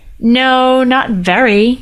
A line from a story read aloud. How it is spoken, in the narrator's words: Ryder said miserably